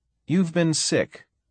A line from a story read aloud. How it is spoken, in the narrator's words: Saray said firmly